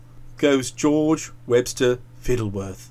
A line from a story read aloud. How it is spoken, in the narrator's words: said in a low voice